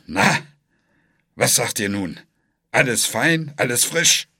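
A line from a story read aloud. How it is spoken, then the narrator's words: Grumbling mutter. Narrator (German): brummte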